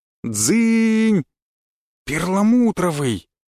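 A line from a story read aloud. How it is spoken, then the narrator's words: Emphatic exclamation, little girl. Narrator (Russian): воскликнула девочка, будто это слово должно было все объяснить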